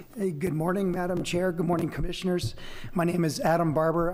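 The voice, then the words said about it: Strained voice. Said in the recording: “my voice is a little strained today. ... it's been strained for quite some time.”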